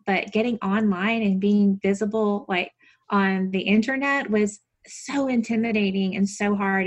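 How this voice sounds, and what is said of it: Southern American accent. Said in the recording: “my Southern accent ... My voice is too nasal.”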